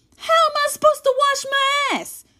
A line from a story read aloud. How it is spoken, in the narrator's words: Dre yells from upstairs